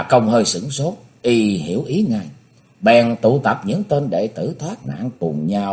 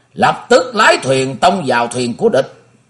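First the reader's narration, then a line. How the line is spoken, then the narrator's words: Loud command. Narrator (Vietnamese): Tịch Ứng Chân lớn tiếng ra lệnh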